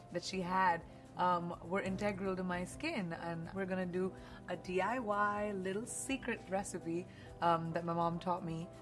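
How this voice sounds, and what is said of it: Speaks with her natural accent. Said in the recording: “I love listening to her real accent... intoxicating... I could listen to her talk for hours”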